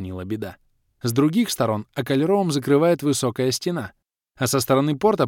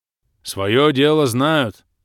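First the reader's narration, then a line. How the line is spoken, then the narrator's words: Approving rumble. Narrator (Russian): Одобрительно прогудел Бом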